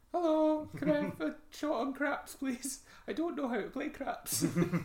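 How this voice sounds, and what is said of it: Squeaky female character voice. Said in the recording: “This is a female accent, I think... I'm going for this... The guy with a squeaky voice.”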